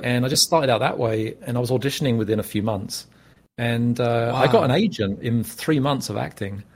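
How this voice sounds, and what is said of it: British accent. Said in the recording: “I was probably the only British actor in San Diego ... British accent”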